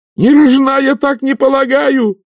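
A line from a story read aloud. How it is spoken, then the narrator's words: Yelling jester. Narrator (Russian): заорал очнувшийся шут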